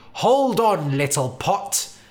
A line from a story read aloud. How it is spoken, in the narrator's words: the builder cried